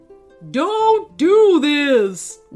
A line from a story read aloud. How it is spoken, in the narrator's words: wailed Mr